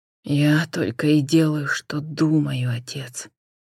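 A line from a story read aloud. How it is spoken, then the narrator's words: Quiet reply. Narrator (Russian): негромко отозвался Джон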